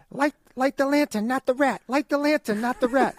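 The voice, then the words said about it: Cartoon rat character voice. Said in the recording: “a new voice for Rizzo the Rat ... that was pretty good”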